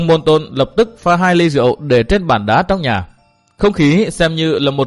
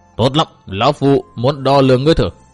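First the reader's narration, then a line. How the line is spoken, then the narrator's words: Harsh, gritted. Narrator (Vietnamese): Đông Môn Nghiêu gằn giọng nói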